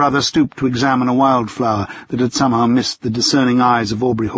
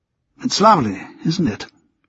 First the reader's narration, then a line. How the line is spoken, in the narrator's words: Richard murmured